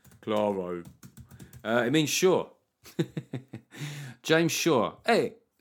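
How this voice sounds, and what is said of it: Put-on Italian accent. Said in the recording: “I don't know what accent I was about to do. An Italian accent there.”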